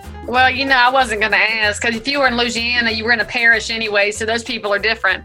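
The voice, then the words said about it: Noticeable regional accent. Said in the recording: “I love your accent... it's my get out of jail free card, and I lean into it.”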